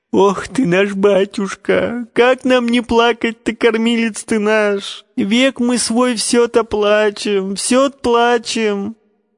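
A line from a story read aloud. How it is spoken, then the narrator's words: Old woman sobbing. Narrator (Russian): всхлипывала в ответ старуха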